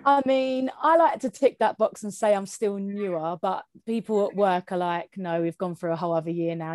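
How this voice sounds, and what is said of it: Southeast English Kent accent. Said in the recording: “I thought I heard a familiar accent. I'm also southeast, but I'm Essex. I'm not Kent. There is variety in those accents”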